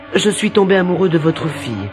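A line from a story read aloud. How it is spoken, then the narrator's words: Plain. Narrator (French): dit-il au roi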